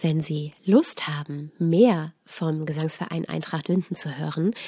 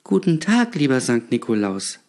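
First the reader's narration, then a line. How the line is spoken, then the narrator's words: Child stammering. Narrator (German): stammelte das Kind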